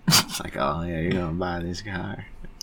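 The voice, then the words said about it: Smooth-talking celebrity voice impression. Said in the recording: “that was a perfect impression, ... You think that was smooth?”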